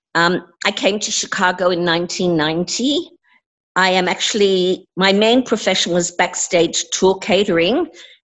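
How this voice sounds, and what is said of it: Australian accent with slight English tinge. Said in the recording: “hearing your accent ... you are from Australia ... I have a little bit of an English accent because I did live in England for several years ... my accent as being international”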